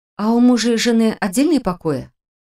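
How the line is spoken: Very quiet whisper. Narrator (Russian): Совсем тихо прошептала

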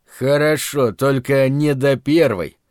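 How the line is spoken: Grating through teeth. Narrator (Russian): проскрежетал сквозь зубы Лютый

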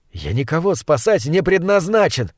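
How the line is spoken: Snapping retort. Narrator (Russian): огрызнулся я

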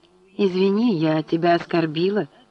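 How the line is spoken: Plain. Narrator (Russian): сказала она

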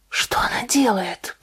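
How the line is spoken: Whisper. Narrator (Russian): прошептала Натали

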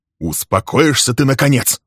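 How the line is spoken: Irritated question. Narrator (Russian): раздраженно спросил он

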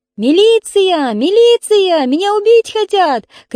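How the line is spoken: Screaming into phone. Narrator (Russian): кричала муза в трубку

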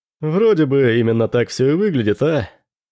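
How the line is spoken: Laughing. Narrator (Russian): Рассмеялся Дрейк вместе с ней

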